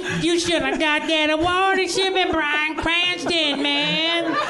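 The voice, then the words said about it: Comic character voice impression. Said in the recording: “you do a really good Amerigo Fespucci impression”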